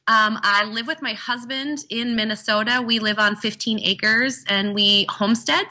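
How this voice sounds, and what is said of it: North Dakota (Fargo) accent. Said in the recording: “I was born in Fargo, North Dakota. That's the accent that you're hearing.”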